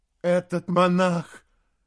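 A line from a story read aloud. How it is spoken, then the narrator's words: Moaning. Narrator (Russian): наконец простонал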